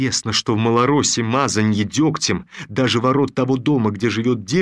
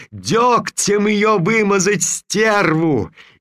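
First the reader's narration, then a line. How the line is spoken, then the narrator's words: Shrill old woman yelling, distant. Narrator (Russian): визгливый старушечий голос заорал откуда-то позади толпы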